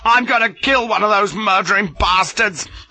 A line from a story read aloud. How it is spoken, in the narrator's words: I roared